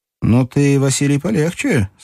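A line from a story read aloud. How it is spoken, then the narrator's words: Cheerful. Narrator (Russian): сказал Струков весело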